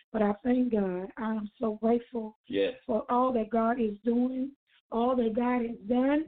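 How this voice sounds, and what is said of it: Strained voice. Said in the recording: “My voice is really, really strained.”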